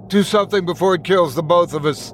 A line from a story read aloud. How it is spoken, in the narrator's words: shouted